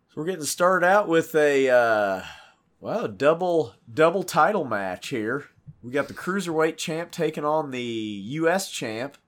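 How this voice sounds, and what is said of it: Heavily congested voice. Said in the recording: “I apologize for my voice. I am savagely congested.”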